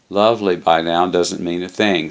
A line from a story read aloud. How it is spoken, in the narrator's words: said Bill